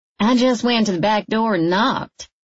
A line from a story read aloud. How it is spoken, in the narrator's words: a voice said